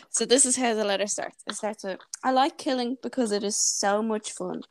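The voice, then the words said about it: Irish Wicklow accent. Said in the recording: “my nice Wicklow accent ... clear for everyone to understand”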